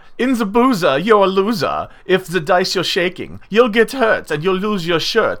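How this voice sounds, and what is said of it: Funny put-on German accent. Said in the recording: “My kind of funny ah German accent”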